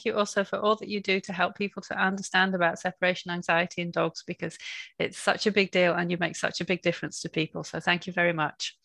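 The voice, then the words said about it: Mild British Yorkshire accent. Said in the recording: “the accent's not quite as strong as mine ... I do still sound British rather than Canadian ... I don't have that strong Yorkshire accent anymore”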